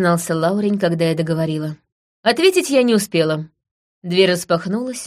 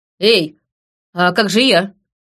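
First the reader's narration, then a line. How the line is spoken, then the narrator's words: Calling after. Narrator (Russian): крикнула я вслед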